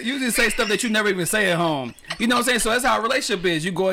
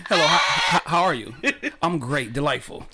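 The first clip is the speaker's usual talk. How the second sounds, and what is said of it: Put-on proper, polite white-sounding voice. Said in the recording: “your best white impersonation ... do the voice. Do the voice. ... He got the best voice”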